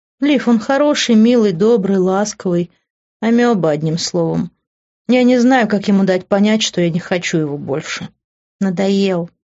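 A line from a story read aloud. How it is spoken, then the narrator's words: Explaining. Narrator (Russian): объяснила Реджи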